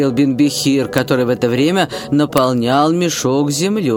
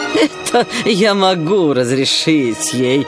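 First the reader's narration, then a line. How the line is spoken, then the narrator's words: Laughing exclamation. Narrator (Russian): воскликнул калиф, смеясь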